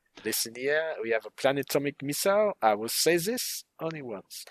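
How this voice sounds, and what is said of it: Outrageous comedy French accent. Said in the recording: “she speaks in an outrageous comedy French accent”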